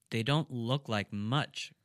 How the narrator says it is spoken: grumbled Tolia

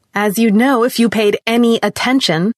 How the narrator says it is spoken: she continued, her voice rising

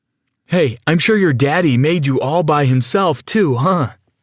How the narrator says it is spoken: continued laughing

